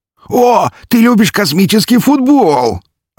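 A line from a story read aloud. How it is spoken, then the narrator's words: Delighted squeal. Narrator (Russian): обрадованно взвизгнул он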